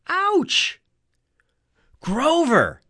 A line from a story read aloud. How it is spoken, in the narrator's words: Annabeth yelled